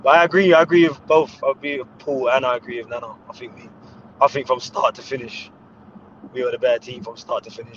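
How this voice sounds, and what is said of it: Hoarse, strained voice. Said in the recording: “you can hear my voice. It's still my voice is gone from yesterday.”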